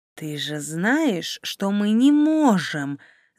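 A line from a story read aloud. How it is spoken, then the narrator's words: Angry hiss. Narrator (Russian): зло прошипел собеседник Дария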